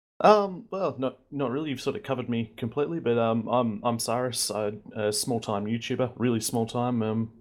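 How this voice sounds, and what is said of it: Australian accent. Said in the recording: “the beautiful Aussie accent”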